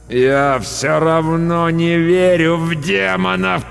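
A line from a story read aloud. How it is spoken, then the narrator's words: Moaning. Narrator (Russian): простонал я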